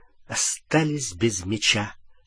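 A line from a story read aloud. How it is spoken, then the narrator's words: Through gritted teeth. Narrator (Russian): сквозь зубы закончил за него Гарри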